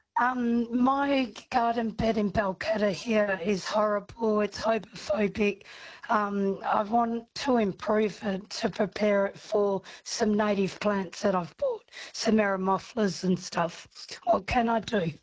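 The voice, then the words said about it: Hoarse voice from laryngitis. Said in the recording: “I've got laryngitis. ... Oh, you poor thing.”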